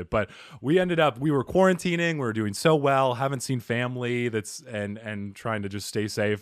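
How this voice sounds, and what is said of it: Slightly raspy voice. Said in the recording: “that's the little raspiness in my voice”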